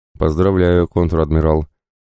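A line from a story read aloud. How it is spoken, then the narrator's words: Dry, unironic. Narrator (Russian): Сухо, но тем не менее без иронии и сарказма произнес Кондратий Витальевич Белов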